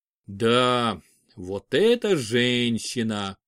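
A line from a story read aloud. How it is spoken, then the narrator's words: Drawn-out drawl. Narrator (Russian): протянул Олег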